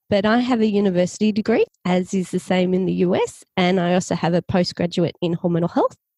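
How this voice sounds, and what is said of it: Australian accent. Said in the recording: “I'm from Australia. You can probably tell from my accent.”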